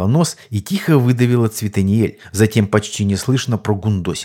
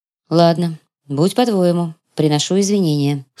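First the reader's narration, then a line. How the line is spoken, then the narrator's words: Dry reply. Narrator (Russian): сухо ответила темная эльфийка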